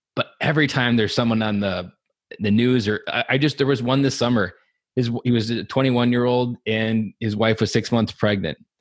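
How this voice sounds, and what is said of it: Choked-up, emotional voice. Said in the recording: “getting choked up with you here, so I'm going to lose it”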